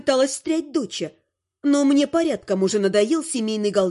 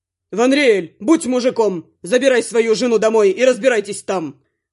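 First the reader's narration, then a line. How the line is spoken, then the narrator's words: Barked. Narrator (Russian): рявкнул вредитель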